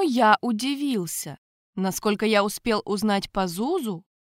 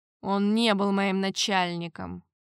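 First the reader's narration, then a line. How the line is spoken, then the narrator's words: Dry reply. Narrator (Russian): сухо ответил Эль-Кариана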